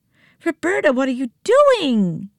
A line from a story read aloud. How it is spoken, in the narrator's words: shrieked as she tried to tighten her grip